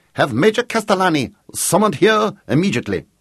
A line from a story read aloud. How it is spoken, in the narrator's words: the Count barked